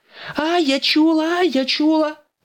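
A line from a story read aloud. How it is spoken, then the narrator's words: Shouted. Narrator (Ukrainian): закричала Настя, вбігаючи в кухню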